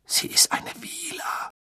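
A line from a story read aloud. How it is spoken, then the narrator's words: Hoarse blurting. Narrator (German): stieß er mit heiserer Stimme hervor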